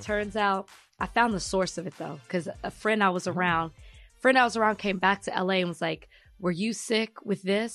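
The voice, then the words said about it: Congested, nasal sick voice. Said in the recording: “I'm congested. My throat hurts. ... my nose is also running. You can hear it in my voice.”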